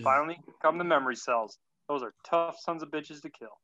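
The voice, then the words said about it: Weak put-on Southern accent. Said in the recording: “a very pathetic southern accent”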